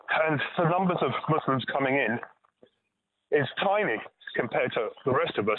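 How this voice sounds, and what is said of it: Noticeable immigrant accent. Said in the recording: “you clearly are too, judging by your accent.”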